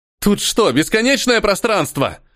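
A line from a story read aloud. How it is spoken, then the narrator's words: Desperate exclamation. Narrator (Russian): В отчаянии воскликнул Ниэль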